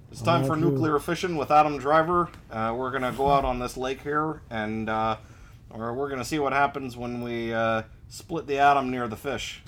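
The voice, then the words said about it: Put-on Midwestern accent. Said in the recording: “kind of a uh, Midwestern accent”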